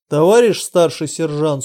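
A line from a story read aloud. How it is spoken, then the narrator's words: Stern question. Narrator (Russian): строго спросил Виктор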